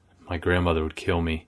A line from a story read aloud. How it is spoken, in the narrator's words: whispered